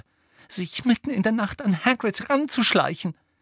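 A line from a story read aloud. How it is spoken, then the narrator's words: Breathless furious gasping. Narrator (German): keuchte Hermine, die so zornig war, dass sie kaum reden konnte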